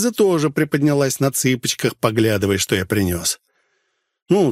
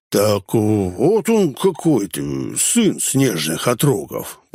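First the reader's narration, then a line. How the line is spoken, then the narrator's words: Drawn-out drawl. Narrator (Russian): протянул Гнус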